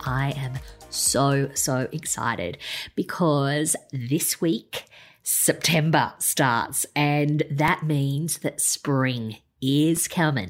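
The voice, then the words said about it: Joyful, excited voice. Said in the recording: “hear the joy in my voice”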